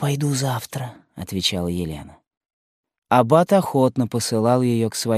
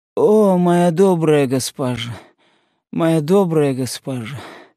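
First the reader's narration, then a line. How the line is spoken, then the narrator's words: Moaning. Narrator (Russian): застонала она, увидев Елену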